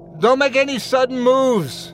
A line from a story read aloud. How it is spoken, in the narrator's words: I shouted